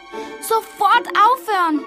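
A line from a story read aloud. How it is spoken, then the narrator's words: Called out. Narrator (German): rief Mami Fee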